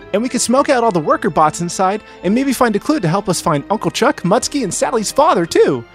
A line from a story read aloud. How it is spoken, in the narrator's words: Tails added eagerly